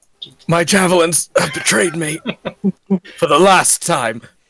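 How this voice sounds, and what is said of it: Good Vegeta character impression. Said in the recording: “good Vegeta impression”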